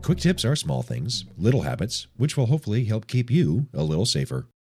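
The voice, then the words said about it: Sick, rough-sounding voice. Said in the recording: “apologize for my voice this week. I have a bit of the flu.”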